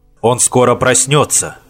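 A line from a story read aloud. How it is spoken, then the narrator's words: Plain. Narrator (Russian): сказал Уф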